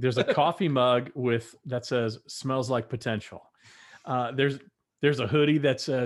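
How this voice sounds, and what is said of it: Usual voice. Nothing is said of it.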